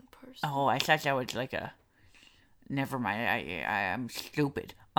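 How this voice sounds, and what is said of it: Nerdy put-on character voice. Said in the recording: “nerd voice”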